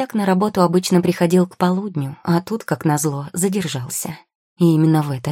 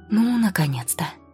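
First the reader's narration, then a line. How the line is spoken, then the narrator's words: Inaudible relieved exhale. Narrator (Russian): Неслышно выдохнул секретарь Люсьен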